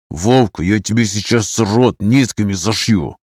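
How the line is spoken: Angry whisper. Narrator (Russian): Зло шепчу

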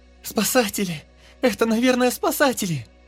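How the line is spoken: Joyful overlapping shouts. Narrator (Russian): кричали они радостно наперебой

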